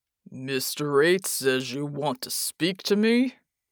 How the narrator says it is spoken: he boomed

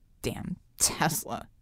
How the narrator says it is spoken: she muttered

